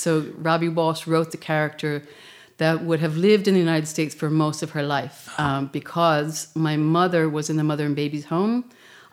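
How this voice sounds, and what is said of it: American accent. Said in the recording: “as you can tell by my accent, I'm from the United States”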